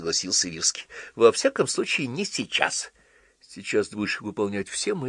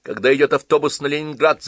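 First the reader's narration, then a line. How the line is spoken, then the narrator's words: Shouted. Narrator (Russian): закричал Джон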